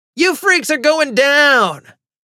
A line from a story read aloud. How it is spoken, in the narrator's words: Eric shouted